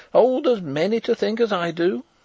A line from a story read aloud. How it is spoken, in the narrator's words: cried the old woman stubbornly